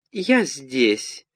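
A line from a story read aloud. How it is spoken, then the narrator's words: Thin ringing voice. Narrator (Russian): прозвенела тонким голоском серебряная ложечка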